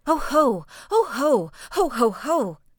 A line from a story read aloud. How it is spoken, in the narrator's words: as he was getting nearer and nearer to the enemy, He screamed